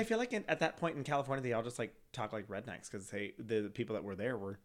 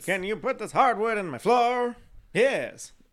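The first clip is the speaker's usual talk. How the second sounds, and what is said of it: Put-on old-timey Chicago accent. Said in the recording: “That's not how people from San Francisco ever spoke. ... I'm just going with like a Chicago accent just because of the time period.”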